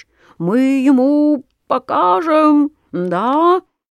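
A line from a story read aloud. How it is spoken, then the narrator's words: Squeaking mosquitoes. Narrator (Russian): летят и пищат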